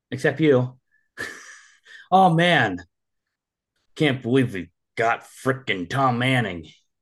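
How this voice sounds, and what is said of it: Exaggerated hillbilly accent, disgusted tone. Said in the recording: “I did you just justice on the accent there. I was trying to give a disgust. It came out super hillbilly.”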